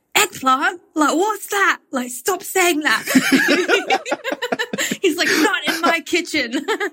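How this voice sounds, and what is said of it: Posh Mary Poppins-style English accent. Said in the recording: “accent ... I make everyone sound like they come out of Mary Poppins.”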